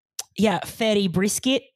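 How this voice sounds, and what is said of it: Put-on Australian accent. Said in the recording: “Can you do a little Australian accent for us?”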